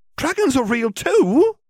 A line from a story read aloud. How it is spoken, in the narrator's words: exclaimed Hermione